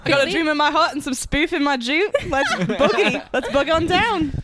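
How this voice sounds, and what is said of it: Put-on Australian accent. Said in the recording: “I'm just going to talk in random Australian accent.”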